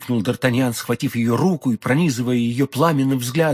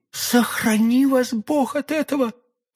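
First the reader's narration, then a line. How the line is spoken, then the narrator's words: Alarmed exclamation. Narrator (Russian): воскликнула молодая женщина, и в голосе ее прозвучала такая тревога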